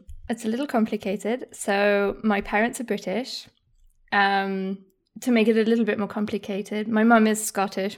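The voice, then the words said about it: Posh English accent. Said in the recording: “a very mixed accent ... it tends to be quite posh English”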